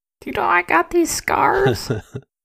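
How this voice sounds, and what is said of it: Bad Joker character impression. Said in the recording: “terrible Joker impression”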